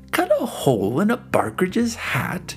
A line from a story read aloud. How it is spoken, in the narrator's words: he exclaimed